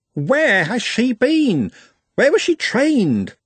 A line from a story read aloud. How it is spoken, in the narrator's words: He, or conceivably she, squeaked